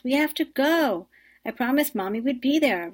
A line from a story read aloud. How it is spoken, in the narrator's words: roared Maria